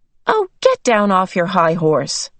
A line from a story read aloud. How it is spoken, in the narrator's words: Meg said crossly